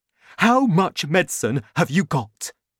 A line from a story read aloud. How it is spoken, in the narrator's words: Cranky shouted